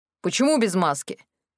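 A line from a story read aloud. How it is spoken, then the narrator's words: Stern question. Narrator (Russian): строго спросил один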